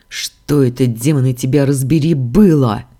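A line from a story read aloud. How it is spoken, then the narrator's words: Growled. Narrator (Russian): прорычал я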